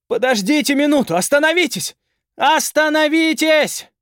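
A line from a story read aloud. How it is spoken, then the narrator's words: Resolute shouting. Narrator (Russian): кричал Даик без колебаний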